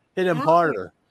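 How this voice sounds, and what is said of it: Put-on New York Long Island accent. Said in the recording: “has that New York, Long Island accent. So it's like a little Italian, a little whatever else, but it's, sounds like this when she talks”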